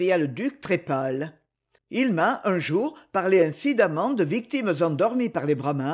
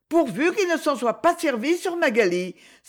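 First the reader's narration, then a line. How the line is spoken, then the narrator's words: Anxious cry. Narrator (French): s'écria Lady Isabelle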